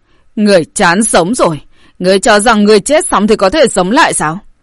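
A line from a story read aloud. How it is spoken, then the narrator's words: Loud roaring shout. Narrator (Vietnamese): Cự Long quát lớn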